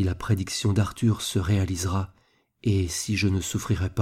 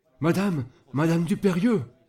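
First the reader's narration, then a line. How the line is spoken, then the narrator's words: Shouting neighbor. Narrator (French): cria le voisin de Jacques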